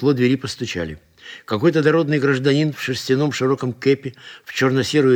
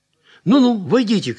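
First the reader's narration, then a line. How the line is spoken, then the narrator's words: Shouted. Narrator (Russian): крикнул Зотов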